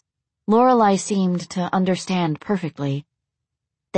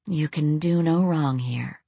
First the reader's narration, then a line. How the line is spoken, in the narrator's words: she murmured to him